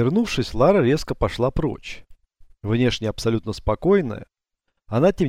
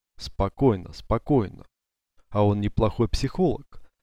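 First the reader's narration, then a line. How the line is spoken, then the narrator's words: Calm inner thought. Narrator (Russian): стараясь рассуждать спокойно, решила она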